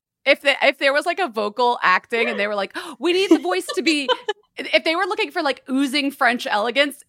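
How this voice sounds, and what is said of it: Philadelphia accent. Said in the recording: “my accent is Philadelphia through and through.”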